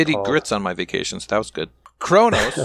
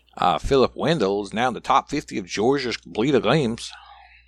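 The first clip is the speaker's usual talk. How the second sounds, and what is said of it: Put-on regional accent. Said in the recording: “Like that accent?”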